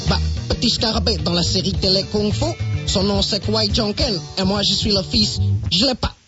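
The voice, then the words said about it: Strong regional French accent. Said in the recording (French): “comment se fait-il que vous ayez un accent aussi prononcé? ... J'ai passé toute mon enfance dans le Loir-et-Cher.”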